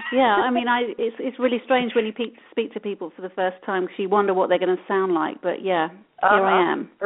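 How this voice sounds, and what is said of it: British-sounding English accent. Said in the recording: “you do have a kind of an accent like the Blog Talk lady does ... apparently in the UK”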